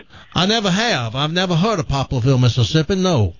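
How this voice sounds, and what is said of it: Put-on Southern accent. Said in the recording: “what's wrong with your voice? Well, what happened to your voice? ... That's my southern accent.”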